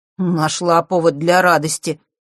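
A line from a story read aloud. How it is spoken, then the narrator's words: Surprised snort. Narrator (Russian): с удивлением хмыкнул он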